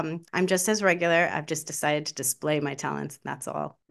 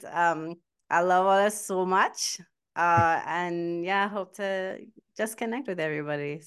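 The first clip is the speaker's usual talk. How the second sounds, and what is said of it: Put-on Trinidadian accent. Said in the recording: “In the Trinidadian accent”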